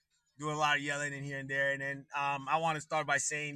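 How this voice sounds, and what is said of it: Slightly hoarse, strained voice. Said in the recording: “my voice is a little off today. I lost a little of my voice yesterday.”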